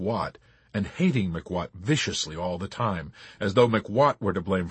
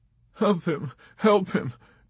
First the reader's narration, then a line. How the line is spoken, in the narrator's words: Dobbs sobbed